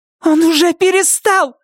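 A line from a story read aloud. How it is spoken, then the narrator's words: Shout. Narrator (Russian): закричала Нетти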